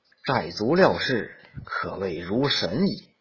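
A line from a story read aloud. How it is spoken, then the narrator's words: Sighing. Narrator (Chinese): 公子吕 叹曰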